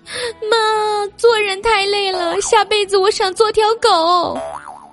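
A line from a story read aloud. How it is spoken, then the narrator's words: Tearful complaining. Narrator (Chinese): 我就跟我妈哭诉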